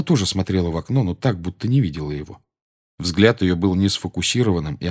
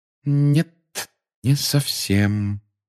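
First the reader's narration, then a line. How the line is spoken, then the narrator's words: Slow. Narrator (Russian): медленно проговорила она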